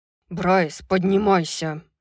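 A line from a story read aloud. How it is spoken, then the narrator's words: Growled. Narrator (Russian): прорычал Хант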